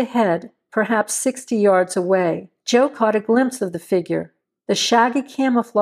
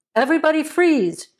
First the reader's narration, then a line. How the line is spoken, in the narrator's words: Joe yelled